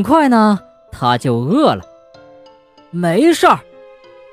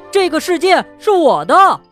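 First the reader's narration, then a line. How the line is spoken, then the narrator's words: Shouting. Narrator (Chinese): 他大叫道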